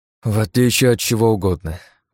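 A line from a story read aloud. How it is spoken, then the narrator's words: Sigh. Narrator (Russian): вздохнул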